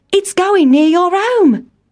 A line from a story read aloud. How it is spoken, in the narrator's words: cried Town Mouse